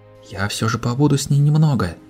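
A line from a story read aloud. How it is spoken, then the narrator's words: Whisper. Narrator (Russian): прошептала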